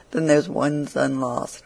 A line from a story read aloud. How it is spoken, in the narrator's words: she said it in a very mournful tone, as one greatly concerned at it